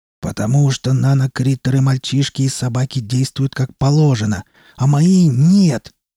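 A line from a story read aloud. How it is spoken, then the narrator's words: Shouted. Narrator (Russian): выкрикнул Дорман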